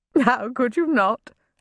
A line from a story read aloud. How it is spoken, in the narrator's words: Lady Summersby giggled